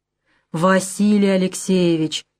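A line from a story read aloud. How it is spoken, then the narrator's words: Drawling. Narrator (Russian): протянул Мухолатов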